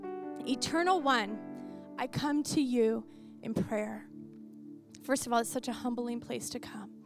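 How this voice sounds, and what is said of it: Dry, parched voice. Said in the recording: “My voice is dry because I don't talk as much as I normally do, so it's drying out.”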